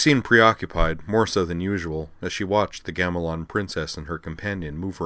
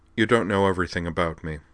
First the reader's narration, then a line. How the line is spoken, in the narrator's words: Liza replied